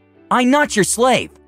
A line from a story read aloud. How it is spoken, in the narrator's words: the dragon declared hotly